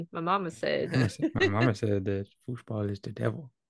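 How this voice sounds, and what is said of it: Imitates another person's voice. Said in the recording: “do that voice ... You sound just like Adam Sandler.”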